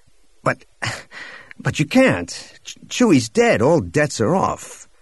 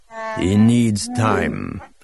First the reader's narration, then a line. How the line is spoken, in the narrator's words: Atachitkuk growled, somehow without making it sound menacing